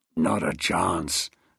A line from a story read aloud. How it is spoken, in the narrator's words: snarled Glass